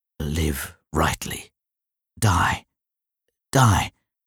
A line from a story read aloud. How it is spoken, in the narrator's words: I heard him mutter